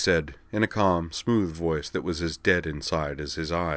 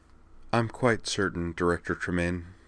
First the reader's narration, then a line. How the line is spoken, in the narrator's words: Miss Leclerc replied, struggling to keep her voice even